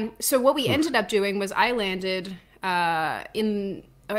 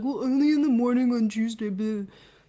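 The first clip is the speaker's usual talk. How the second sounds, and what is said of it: Imitates a generic man's voice. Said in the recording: “Good impression. ... that's also the impression you do for me. I think that's just your other guy impression.”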